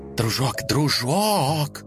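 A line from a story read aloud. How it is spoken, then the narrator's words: Loud whisper. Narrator (Russian): громко зашептала она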